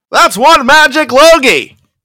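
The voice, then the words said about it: Jerry Seinfeld impression. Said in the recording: “to steal from Jerry Seinfeld, the great Jerry Seinfeld. ... Is that a good impression? Probably not.”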